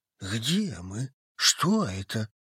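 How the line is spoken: Trembling question. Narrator (Russian): дрожащим голосом спросил один из убийц

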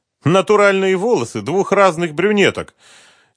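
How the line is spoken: Overly cheerful. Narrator (Russian): чересчур уж радостно сообщил Эдгар

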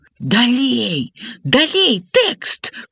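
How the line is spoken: Shouted whisper. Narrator (Belarusian): крычыць на іх шэптам дзядзька Лявон

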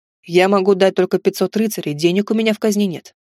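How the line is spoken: Plain. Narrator (Russian): сказал

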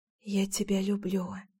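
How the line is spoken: Soft whisper. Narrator (Russian): тихонько шепнула

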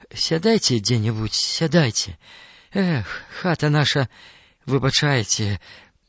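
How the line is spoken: Sighing. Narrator (Belarusian): уздыхнуў Ксаверы

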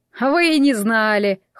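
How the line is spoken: Short laugh. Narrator (Russian): хохотнул Альтаказар

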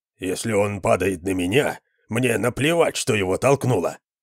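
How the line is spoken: Muttered. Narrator (Russian): пробормотал кто-то

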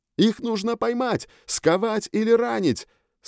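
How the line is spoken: Shouting. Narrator (Russian): снова крикнул я охотнику

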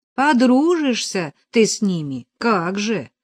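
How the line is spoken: Grumbled. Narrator (Russian): проворчала Нелли

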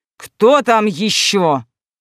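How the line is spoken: Magically amplified wall-shaking roar. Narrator (Russian): рыкнул Драгор Непобедимый, машинально усилив голос магии, отчего задрожали стены

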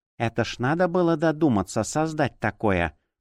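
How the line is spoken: Grumble. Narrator (Russian): проворчала она

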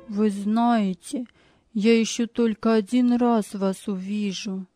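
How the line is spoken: Sad. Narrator (Russian): сказал он печально

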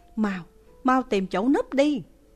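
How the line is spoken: Loud urgent voice. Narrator (Vietnamese): Hàng Phong lớn tiếng nói với Lãnh Kính Hàng

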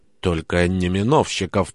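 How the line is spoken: Whispered. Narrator (Russian): прошептал мне Петр

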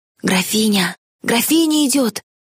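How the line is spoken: Rustling whispers all around. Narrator (Russian): Зашелестели со всех сторон шепотки

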